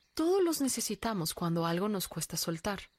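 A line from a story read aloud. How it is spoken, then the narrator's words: Plain. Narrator (Spanish): respondió ella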